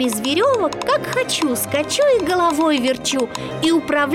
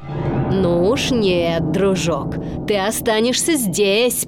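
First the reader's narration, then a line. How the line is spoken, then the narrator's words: Growled. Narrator (Russian): прорычал Стромболи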